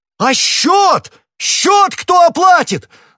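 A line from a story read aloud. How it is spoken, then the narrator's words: Contemptuous yell. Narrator (Russian): завопил хозяин, расположение которого к гостю превратилось в глубочайшее презрение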